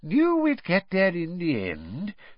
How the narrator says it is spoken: said Fudge wearily to Harry

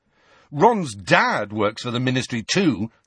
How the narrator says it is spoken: Harry said furiously

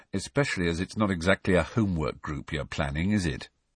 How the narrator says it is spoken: said Harry dryly

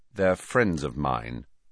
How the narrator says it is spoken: said Harry coldly

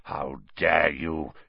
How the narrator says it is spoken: he growled, suddenly sounding like the bear-sized dog he had been

